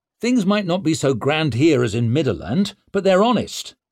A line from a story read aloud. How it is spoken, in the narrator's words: he snapped